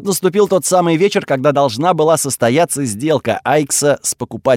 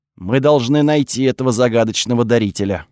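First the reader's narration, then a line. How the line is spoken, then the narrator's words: Plain. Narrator (Russian): сказал Кириус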